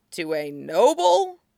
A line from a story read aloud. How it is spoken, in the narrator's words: Chung Chung chuckled